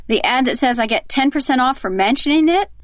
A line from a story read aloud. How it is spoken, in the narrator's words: mouth-breathers saying with a snort and a sneer